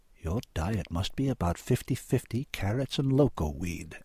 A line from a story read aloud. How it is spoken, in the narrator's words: Annie said softly